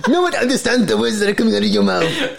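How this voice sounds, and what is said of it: Poor imitation of another person's voice. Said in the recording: “Why does he sound like that? That's the worst Jackie impression.”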